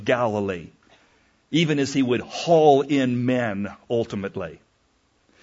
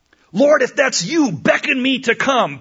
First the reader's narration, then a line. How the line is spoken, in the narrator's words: Peter cried out in the midst of the storm